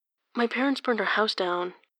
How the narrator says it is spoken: she says quietly

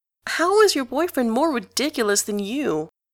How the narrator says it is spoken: Gavroche moans

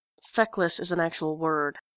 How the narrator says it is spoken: says Enjolras through gritted teeth

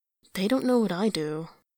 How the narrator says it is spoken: he mutters

